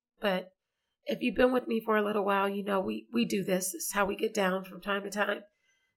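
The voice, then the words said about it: Scratchy, slightly hoarse voice. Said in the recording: “my voice is a little scratchy ... My voice goes in and out because you know that's what happens when I get busy and tired.”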